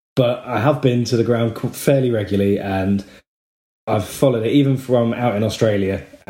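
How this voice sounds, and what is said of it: Southern English accent. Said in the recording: “you can tell that from my southern accent”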